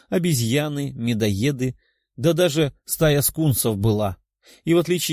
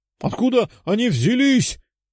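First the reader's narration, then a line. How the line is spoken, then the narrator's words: Shouting. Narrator (Russian): кричал один из солдат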